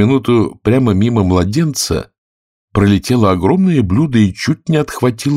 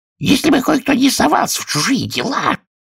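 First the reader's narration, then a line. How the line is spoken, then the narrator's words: Hoarse grumble. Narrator (Russian): хрипло проворчала герцогиня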